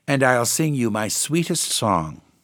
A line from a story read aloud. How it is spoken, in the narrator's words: she cried